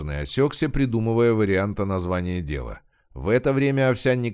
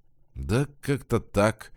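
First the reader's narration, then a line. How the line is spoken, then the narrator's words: Uncertain. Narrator (Russian): неуверенно произнес Смирный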